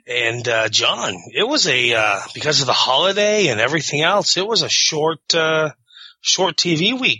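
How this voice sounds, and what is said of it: Slightly off voice from throat cold. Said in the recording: “I'm struggling with a throat cold, so if I sound a little funny or I lose my voice a little bit here and there”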